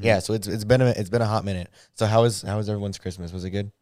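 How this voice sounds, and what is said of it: Hoarse voice. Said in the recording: “I apologize if my voice sounds kind of hoarse. I was at the Wisconsin ASU game last night... that's why my voice is a little hoarse”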